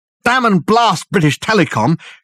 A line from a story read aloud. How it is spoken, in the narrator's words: shouted Dirk, the words coming easily from force of habit